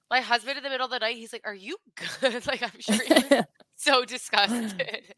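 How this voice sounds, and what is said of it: Congested, clogged-up voice. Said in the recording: “I sound terrible, clogged up, congested.”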